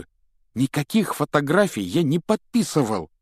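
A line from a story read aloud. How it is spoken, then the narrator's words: Heated exclamation. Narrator (Russian): с жаром воскликнул он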